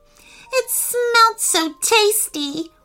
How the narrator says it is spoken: whimpered Sasha

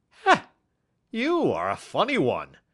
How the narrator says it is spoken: chuckled the inspector

